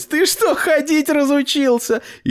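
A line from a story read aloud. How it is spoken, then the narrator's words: Laughing. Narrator (Russian): А Лиза засмеялась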